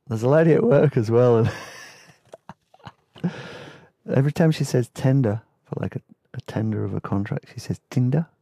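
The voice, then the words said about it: New Zealand accent. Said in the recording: “Sorry for my Kiwi accent.”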